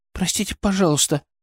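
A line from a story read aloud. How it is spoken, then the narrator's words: Guilty whisper. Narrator (Russian): начала она виноватым шепотом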